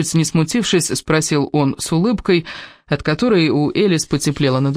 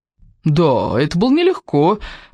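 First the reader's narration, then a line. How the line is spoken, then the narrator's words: Laughing. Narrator (Russian): рассмеялся Кевин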